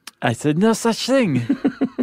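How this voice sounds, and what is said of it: Cartoonish put-on French accent. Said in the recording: “That's good, Louis Pasteur... Chuck Jones version of Napoleon... That's how I learned to do a French accent.”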